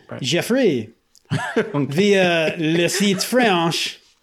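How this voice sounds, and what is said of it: Mock French accent. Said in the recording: “shouldn't you be reading this in a French accent?”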